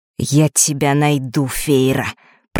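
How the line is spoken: Through gritted teeth. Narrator (Russian): процедил вместо него Фэш

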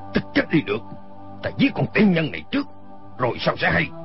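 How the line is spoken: Sharp shout. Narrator (Vietnamese): Y quát lên

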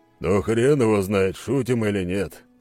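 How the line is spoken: Snorting voice. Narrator (Russian): хмыкнул Скала

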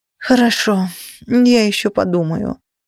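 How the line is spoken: Dejected sigh. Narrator (Russian): вздохнула я, чувствуя, что совсем нос повесила

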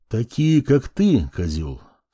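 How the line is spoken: Calm, suppressed fury. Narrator (Russian): спокойно заговорил я, хотя внутри все пылало

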